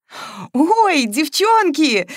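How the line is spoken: Joyful cry. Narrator (Russian): радостно вскрикнула Маша

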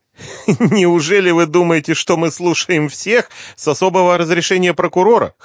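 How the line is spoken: Chuckled. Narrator (Russian): хохотнул Захар

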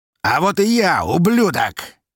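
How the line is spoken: Shout. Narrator (Russian): крикнул он в коридор

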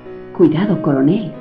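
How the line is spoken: Slow, very tender, close. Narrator (Spanish): dijo junto a su oído, despacio, con una voz muy tierna

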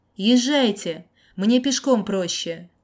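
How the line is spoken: Shouted. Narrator (Russian): Крикнул

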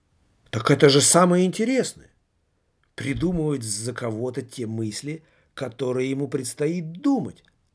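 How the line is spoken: Jester woman's exclamation. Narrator (Russian): Воскликнула женщина-шут

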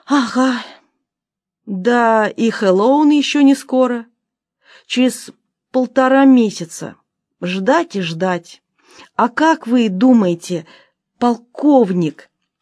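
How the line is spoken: Boy's sorrowful sigh. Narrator (Russian): вздохнул мальчик, совсем горестно

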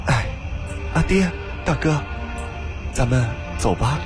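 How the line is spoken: Faint indifferent sigh. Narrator (Chinese): 赵曼…淡淡的叹了口气道

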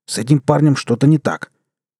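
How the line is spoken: Shouted. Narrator (Russian): Человек с ракетницей что-то закричал

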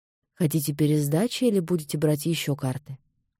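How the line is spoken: Indifferent question. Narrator (Russian): равнодушным голосом спросил Ян

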